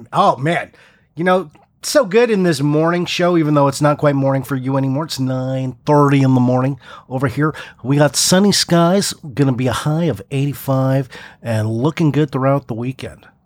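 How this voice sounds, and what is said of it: Corny radio announcer voice. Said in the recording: “It's my radio voice. ... It was a little bit corny ... I felt like I was doing radio”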